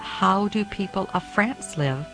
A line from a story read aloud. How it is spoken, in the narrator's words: asked